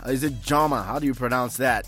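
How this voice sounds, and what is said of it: Attempted Tonga accent pronunciation. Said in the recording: “Is that supposed to be a Tonga accent? ... I feel terribly at it, but at least I can try. There's a particular way that they say it.”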